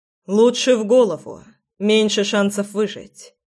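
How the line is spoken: Calm informing. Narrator (Russian): спокойно проинформировал Фрол

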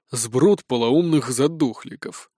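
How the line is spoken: Displeased grumble. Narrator (Russian): недовольно проворчал Блэк

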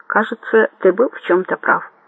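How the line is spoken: Plain. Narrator (Russian): сказал он

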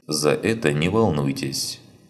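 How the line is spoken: Calm statement. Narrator (Russian): спокойно заявил Ланс

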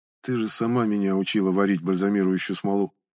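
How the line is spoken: Even tone. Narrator (Russian): ровным тоном отозвался собеседник

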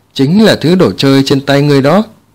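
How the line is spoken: Plain. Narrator (Vietnamese): Hắc Diệu nói

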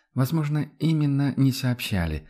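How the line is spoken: Sighing. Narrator (Russian): вздохнула Адельхайда

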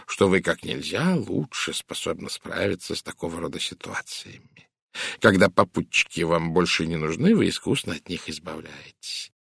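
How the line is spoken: Polite purr. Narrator (Russian): учтиво промурлыкал Пуаро

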